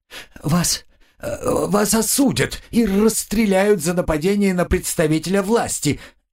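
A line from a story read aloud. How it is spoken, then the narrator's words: Babbling. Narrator (Russian): лепетал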